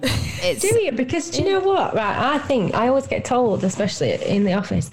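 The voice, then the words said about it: Strong Yorkshire English accent. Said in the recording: “I do like your accent ... I'm really Yorkshire and that it's hard to understand what I'm saying ... you've got a really good voice for radio ... It's a great accent ... It's quite a homely thing.”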